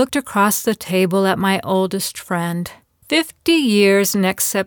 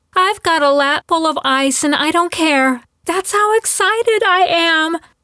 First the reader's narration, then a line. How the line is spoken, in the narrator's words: she exclaimed